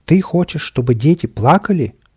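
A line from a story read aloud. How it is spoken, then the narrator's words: Exclamation. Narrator (Russian): воскликнул кот в сапогах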